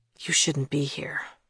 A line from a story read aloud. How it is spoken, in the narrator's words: Thomas whispered